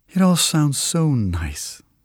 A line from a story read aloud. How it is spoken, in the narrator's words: the lady says with a sigh